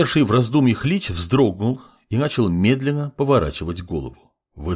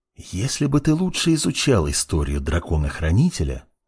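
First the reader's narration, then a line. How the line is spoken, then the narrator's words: Whisper. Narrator (Russian): прошептал Мурана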